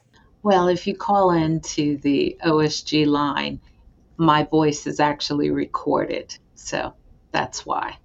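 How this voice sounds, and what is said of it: Soothing, calm voice. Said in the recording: “I've been told that my voice is soothing when we have stressful situations ... it is indeed uh, a soothing voice”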